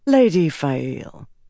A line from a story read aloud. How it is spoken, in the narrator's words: said calmly